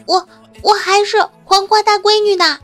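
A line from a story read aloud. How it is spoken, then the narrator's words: Flustered, loud. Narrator (Chinese): 女神小脸微红，急了，大声说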